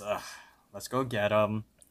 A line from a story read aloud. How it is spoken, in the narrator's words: Mordecai sighs and says